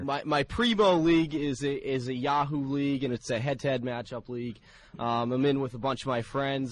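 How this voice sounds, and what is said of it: Thick regional accent. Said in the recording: “your thick accent”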